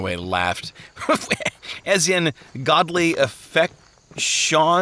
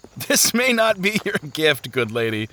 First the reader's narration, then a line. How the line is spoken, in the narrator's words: Turnaway laughed